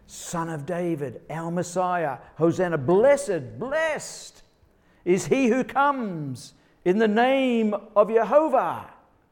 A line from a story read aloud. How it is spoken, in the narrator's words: They're shouting